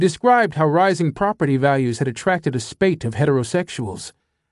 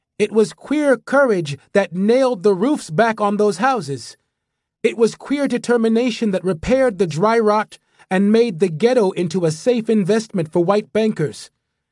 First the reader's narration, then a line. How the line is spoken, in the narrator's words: he called out